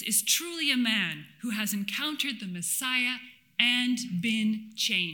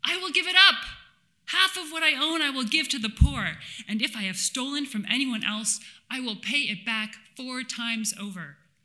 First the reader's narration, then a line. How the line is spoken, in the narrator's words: he is undaunted by the scrutinizing crowd and blurts out